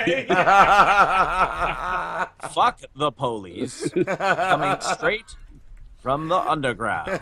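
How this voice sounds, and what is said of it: Deep, slow, imitated narrator voice. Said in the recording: “my Morgan Freeman impression... Morgan Freeman reading lyrics... Morgan Freeman reads NWA”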